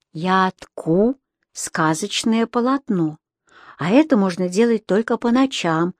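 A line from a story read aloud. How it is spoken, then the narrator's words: Plain. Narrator (Russian): ответила она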